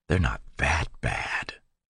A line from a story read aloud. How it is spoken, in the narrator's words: she whispered